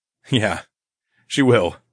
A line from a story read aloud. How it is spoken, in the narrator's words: I chuckled